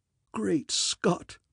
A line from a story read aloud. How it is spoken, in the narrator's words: he whispered hoarsely